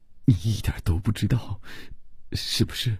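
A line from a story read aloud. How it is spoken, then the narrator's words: Frightened pleading stammer. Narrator (Chinese): 吓得不愿意再看，只用哀求的目光结结巴巴地说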